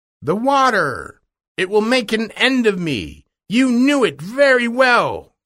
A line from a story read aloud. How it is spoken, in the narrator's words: cried the witch